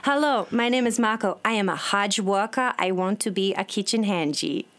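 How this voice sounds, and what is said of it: Brazilian Portuguese accent. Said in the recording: “With a Brazilian sort of Portuguese accent.”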